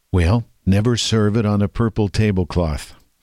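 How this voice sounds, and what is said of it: Good Ronald Reagan impression. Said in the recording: “That's a good imitation.”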